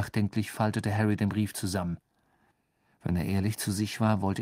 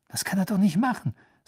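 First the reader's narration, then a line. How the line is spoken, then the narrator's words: Tense. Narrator (German): sagte Harry mit angespannter Stimme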